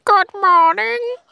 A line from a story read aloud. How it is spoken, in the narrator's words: a very croaky, creaky kind of voice said